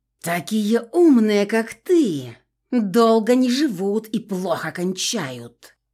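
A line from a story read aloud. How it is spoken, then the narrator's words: Witch hissing. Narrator (Russian): прошипела ведьма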